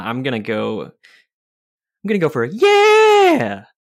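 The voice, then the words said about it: Exclaims yeah in falsetto. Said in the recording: “I like the falsetto.”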